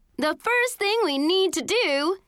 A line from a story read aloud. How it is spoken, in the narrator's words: Summer yelled